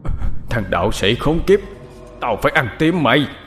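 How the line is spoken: Demon's hateful howling. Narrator (Vietnamese): con quỷ, miệng không ngừng kêu gào lên oán hận

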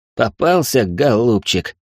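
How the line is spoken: Creaky voice in one breath. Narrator (Russian): одним выдохом проскрипел Алекс

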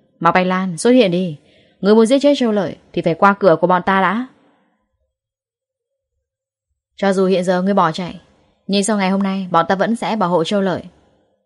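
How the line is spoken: Loud shout. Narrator (Vietnamese): Lâm Hiểu Phong hét lớn

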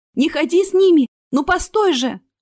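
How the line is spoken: Shouted out. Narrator (Russian): выкрикнула Астра

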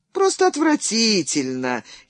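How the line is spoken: Happy sigh. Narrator (Russian): счастливо вздохнул Шамбрен

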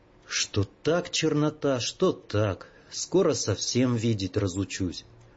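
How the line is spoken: Grumbled. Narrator (Russian): проворчал

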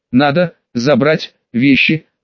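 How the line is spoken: Young woman, slight growl. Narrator (Russian): сказала чуть рычащим голосом девушка

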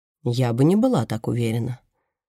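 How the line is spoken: Even voice. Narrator (Russian): ровным голосом отвечает Мерседес

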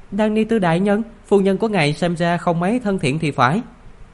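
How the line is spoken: Smiling. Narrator (Vietnamese): Khắc Lý Tư Đế mỉm cười nói

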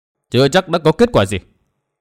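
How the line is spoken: Cold reply. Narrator (Vietnamese): Nguyên Bình lạnh lùng đáp

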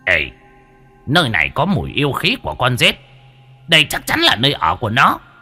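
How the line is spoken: Sudden exclamation. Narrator (Vietnamese): Bất giác lão kêu lên

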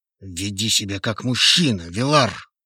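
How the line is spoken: Through gritted teeth. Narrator (Russian): Сквозь зубы процедил Хейвуд

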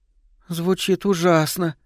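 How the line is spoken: Trembling voice, near tears. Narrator (Russian): дрожащим голосом проговорила Лиззи, вот-вот готовая заплакать

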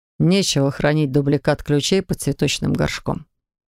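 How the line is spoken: Snorting chuckle. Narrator (Russian): хмыкнул Макс

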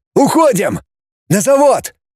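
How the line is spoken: Shout. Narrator (Russian): крикнул Роман

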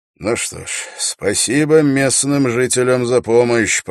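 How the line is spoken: Mumble. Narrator (Russian): пробормотал Холт

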